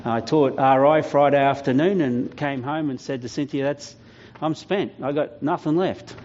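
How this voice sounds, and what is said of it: Voice still sounds unwell. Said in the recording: “As you can hear in my voice, I'm still not 100% recovered”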